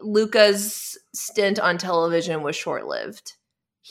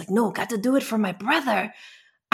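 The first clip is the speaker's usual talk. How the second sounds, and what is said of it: Put-on, unidentified accent. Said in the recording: “I don't know what accent that was I just gave you.”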